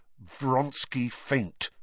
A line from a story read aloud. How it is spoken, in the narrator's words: said Harry through gritted teeth